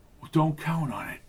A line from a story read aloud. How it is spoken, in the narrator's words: whispered